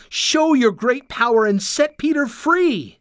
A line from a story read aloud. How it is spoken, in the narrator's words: they cried